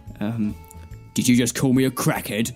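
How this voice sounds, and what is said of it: Danny Dyer impression. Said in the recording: “It sounded like Danny Dyer. Yes, you do have to do a Danny Dyer impression.”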